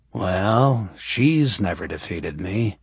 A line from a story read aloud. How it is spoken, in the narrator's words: Justin said, drawling the words